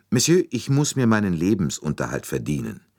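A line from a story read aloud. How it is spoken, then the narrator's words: Calm with a hint of hardness. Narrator (German): Sie sagte ruhig, aber mit einer Spur von Härte in der Stimme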